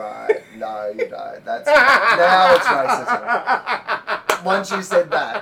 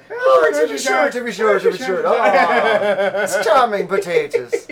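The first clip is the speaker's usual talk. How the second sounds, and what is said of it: Put-on Irish accent. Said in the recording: “going up to an Irish person and being like”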